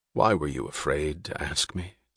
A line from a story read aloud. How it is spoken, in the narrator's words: said Reardon gently